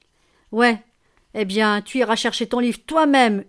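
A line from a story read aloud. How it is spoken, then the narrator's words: Screaming. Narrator (French): hurla Tiphaine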